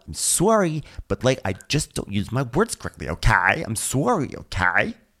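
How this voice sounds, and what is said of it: Imitates another person's voice. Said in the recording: “It's a good impression.”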